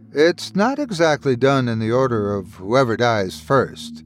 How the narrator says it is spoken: Irvin chuckled

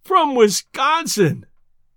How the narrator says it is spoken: groaned Judkins

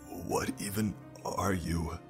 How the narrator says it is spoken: he gasped in his last few seconds of life

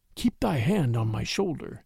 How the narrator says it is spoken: Bagheera whispered

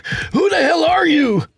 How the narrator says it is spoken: Tony shouted

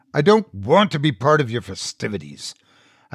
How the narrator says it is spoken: I growled

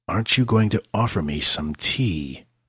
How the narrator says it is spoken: Blackthorn asked

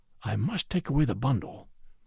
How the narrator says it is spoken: whispered one

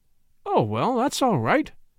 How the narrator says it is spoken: exclaimed the young man cheerfully

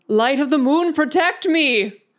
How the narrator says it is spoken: just yell

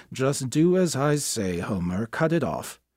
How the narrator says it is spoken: Through a steaming towel, her father had muttered

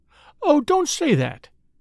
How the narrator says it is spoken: pleaded the lady

